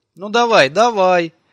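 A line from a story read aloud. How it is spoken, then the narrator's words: Embarrassed shout. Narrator (Russian): крикнул Фили приятелю, чтобы скрыть смущение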